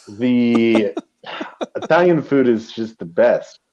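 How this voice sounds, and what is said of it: Slipping into an Italian accent. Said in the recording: “Did you just get an Italian accent?”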